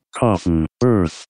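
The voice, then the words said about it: Robotic computer voice. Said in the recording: “that was pretty good. That was a good computer impression... you pretend you're a computer”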